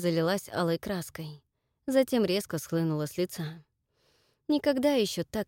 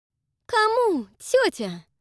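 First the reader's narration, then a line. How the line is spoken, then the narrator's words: Sharp, disgusted question. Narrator (Russian): резко спросила она и с отвращением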